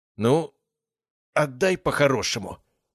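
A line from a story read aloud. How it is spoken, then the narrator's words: Strained pleading tone. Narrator (Russian): выдавил он уже совсем другим тоном, скорее просящим, чем требовательным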